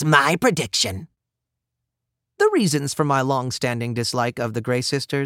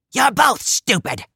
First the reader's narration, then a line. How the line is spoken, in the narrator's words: snapped Tempest